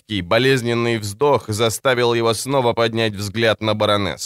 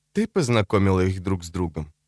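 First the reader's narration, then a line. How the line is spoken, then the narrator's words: Calm question. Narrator (Russian): спросил он спокойным тоном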